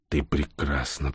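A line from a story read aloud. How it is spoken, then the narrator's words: Whisper. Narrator (Russian): прошептал Всеволод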